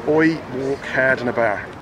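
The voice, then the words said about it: Poor put-on Dublin accent. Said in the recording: “I'm going to try and do a Dublin accent. ... It was bad. ... Was it a bit Jamaican? ... Could have done a bit better there”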